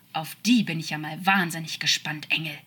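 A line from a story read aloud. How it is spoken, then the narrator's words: Furious growl. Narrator (German): knurrte er wütend, und seine angestauten Emotionen konnten sich nicht mal ansatzweise beruhigen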